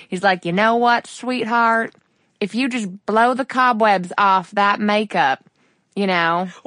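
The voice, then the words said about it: Put-on Texan deep South accent. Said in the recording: “I like went for some Texan and then it turned into like something really not Texan. But he feels like this like deep South, good old boy.”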